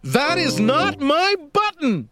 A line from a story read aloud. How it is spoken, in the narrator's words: shouted Toad